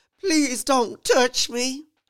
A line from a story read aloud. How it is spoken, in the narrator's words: I begged